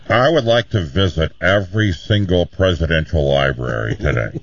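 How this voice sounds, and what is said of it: Imitates another person's voice. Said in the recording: “my impersonation”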